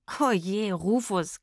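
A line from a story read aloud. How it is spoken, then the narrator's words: Girl giggling. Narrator (German): kicherte das Mädchen mit der Pauke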